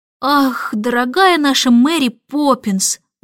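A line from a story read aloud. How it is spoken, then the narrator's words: Sighing. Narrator (Russian): вздохнул Майкл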